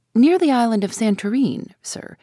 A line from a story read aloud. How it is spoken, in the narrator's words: replied the captain